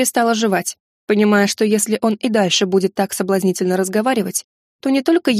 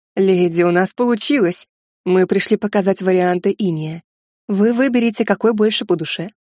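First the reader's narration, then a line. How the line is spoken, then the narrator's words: Velvety voice. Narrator (Russian): бархатным голосом произнес Блэк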